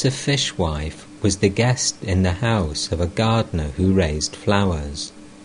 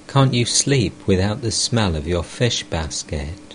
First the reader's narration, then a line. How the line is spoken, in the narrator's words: I laughed and said